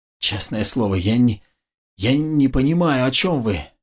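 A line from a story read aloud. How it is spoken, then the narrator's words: Pained groan. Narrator (Russian): Кое-как, справившись с болью, простонал управляющий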